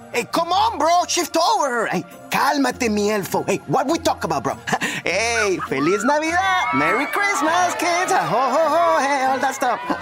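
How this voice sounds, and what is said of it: Thick Mexican accent, hard to understand. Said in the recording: “Mexican mall Santa ... He has a thick accent and is difficult to understand.”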